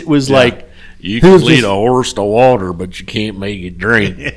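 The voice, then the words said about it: Deep voice, slight Southern accent. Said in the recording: “with the accent and everything ... he has a little southern accent ... and kind of a deep voice.”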